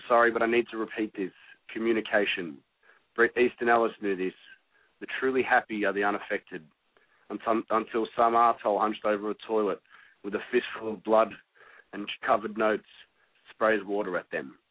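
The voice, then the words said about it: Australian accent. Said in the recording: “your Aussie accent”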